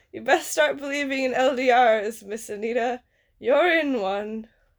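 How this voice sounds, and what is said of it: Bad pirate accent. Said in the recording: “My pirate accent's bad.”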